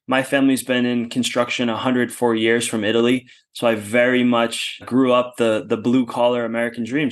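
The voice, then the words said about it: American accent. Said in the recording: “the American accent. It's not quite as charming as yours ... I'm from the US, specifically from outside of Boston”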